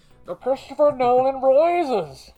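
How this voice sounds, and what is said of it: Imitates Bane's villain voice. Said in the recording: “my best Bane impression ... I love doing the Bane voice”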